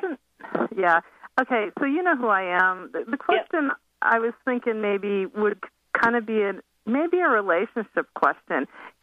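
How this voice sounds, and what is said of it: Hoarse voice from a cold. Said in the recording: “I have a cold that's settled in my throat, so I'm not sure you're going to be able to understand every single word”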